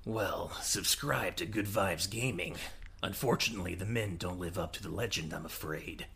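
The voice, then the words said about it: Gravelly video game character voice. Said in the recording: “you do a Snake impression”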